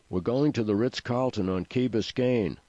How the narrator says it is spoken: shouted Seth

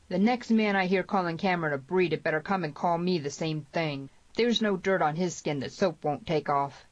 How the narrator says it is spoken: The sheriff lingered to say loudly

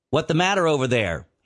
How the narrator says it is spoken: he called out to Langeness

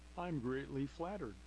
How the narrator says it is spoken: laughed Carly

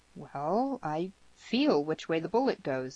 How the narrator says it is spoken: said Cameron

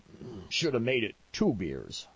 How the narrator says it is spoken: Pete muttered

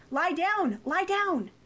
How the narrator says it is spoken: Some people yelled

